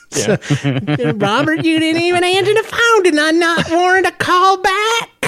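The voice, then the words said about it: Imitating a mother's voice. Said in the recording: “doing my mom voice”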